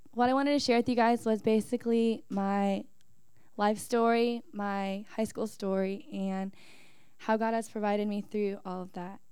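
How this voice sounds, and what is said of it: Voice affected by illness. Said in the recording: “Sorry for my voice, like I've got sick this week.”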